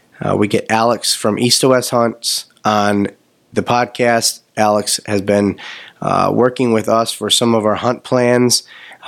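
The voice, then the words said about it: Raspy voice. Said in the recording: “my voice is a little raspy because I've been sick for 2 weeks”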